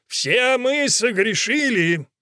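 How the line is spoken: Roared. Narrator (Russian): взревел

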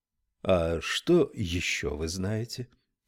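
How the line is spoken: Fairly quiet question. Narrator (Russian): спросил он довольно тихо

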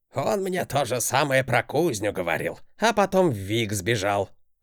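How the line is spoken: Old man's snort. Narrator (Russian): хмыкнул дед

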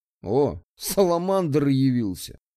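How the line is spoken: Amused snort. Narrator (Russian): хмыкнул регистратор

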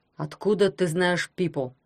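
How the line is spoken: Asked sternly. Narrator (Russian): строго спросил дядя Герман

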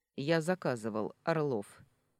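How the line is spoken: Rather rude. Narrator (Russian): довольно грубо представился Сергей

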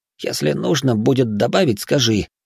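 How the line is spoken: Quiet whisper. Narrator (Russian): тихо шепнул Ичиро

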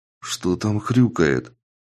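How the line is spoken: Whispered question. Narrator (Russian): шепотом поинтересовался он у Рады

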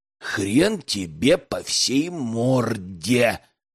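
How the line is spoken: Whispered. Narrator (Russian): прошептал парень

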